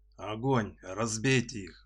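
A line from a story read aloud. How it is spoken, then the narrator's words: Growled command. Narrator (Russian): рыкнул Торнфист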